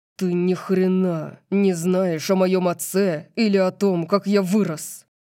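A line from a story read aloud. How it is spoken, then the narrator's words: Growling. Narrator (Russian): Прорычал Дариус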